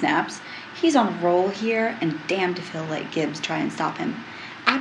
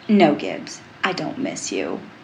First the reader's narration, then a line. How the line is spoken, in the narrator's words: Tony says dryly